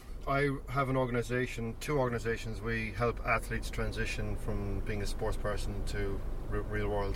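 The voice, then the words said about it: Slight Irish lilt. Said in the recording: “Whereabouts are you from? ... Ireland. ... There was a slight lilt there.”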